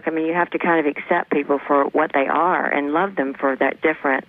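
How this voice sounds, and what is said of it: Southern American accent. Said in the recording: “Listen to that southern accent. Isn't that making you melt?”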